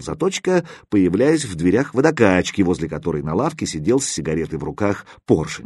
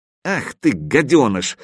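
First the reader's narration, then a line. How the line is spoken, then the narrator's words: Angry exclamation. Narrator (Russian): воскликнул зло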